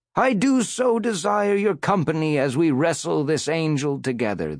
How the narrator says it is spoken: the preacher cried

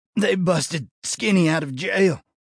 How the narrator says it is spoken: The deputy sucked a sharp breath through gritted teeth and added

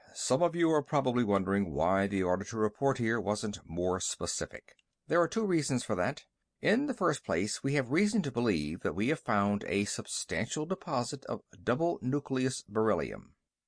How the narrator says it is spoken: The general nodded curtly and said

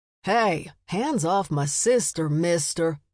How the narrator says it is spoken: Matt barked

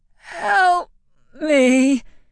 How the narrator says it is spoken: croaked

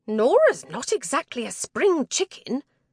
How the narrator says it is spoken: whisper yells

